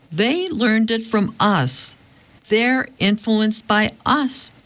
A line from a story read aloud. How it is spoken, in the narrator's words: exclaims